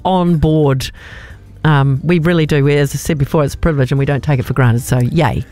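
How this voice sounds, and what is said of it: Scouse Liverpool accent. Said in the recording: “Is that a Scouse accent I heard before? ... is from Liverpool.”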